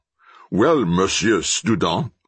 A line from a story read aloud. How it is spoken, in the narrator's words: growled the policeman